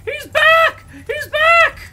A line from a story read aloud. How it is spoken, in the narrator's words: gives a shriek, screaming